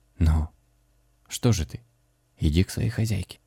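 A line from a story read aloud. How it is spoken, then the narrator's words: Trembling voice. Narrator (Russian): Митя дрогнувшим голосом сказал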